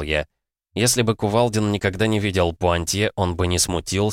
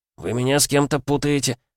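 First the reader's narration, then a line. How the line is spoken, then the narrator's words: Confused mutter. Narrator (Russian): растерянно пробормотал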